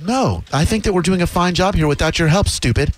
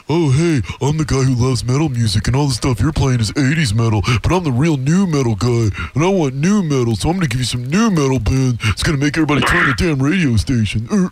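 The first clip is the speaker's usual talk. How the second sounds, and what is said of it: Mocking imitation of another person's voice. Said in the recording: “let me do an impression of you.”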